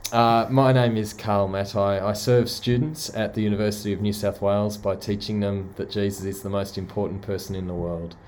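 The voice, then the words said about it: Australian accent. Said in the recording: “visiting from Sydney in Australia ... apologise for the accent right up front ... my convict accent”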